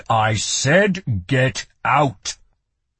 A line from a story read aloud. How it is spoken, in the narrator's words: he boomed